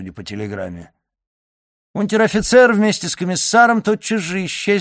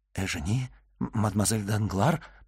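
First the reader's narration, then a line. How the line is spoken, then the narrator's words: Whisper, horror to amazement. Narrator (Russian): прошептал Андреа, переходя от ужаса к изумлению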